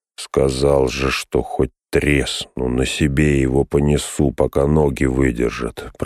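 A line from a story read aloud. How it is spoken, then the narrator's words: Mutter. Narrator (Russian): пробормотал он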